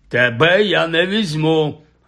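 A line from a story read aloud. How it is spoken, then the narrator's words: Barked. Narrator (Ukrainian): гаркнув він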